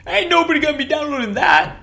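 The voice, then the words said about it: Weak imitation of another person's voice. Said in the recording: “I'm not an impersonator. I can't do a good Charles Barkley.”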